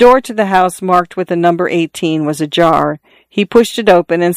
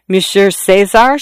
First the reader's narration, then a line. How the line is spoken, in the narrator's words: she stammered, as if she had known him a long time